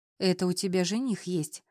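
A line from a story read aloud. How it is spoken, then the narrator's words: Sighing. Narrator (Russian): тоже вздохнула Лиза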